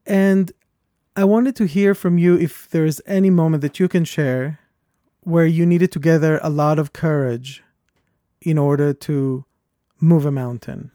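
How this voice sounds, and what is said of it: Speaks with a strong accent. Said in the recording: “I have a lot of accent ... this is my voice, this is my accent”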